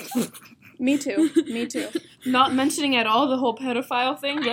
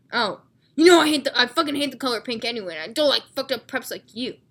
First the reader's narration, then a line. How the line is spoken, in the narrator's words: I snapped